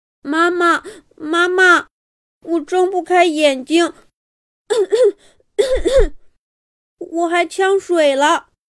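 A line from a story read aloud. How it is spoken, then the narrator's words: Child, tearful voice. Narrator (Chinese): 刚刚下水的兜兜忽然抬起头，带着哭腔说道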